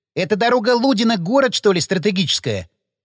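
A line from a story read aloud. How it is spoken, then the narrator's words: Scornful snort. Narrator (Russian): фыркнул Напалм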